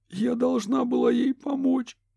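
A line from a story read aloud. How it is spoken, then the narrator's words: Sobbing. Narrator (Russian): всхлипнула Кэти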